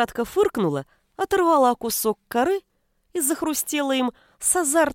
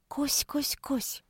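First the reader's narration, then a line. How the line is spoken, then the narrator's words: Gentle calling. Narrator (Russian): Ласково позвала она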